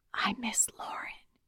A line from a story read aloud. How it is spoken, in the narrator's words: whispered